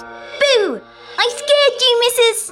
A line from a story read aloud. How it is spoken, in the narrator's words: shouts